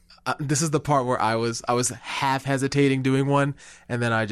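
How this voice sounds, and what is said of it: Usual voice. Nothing is said of it.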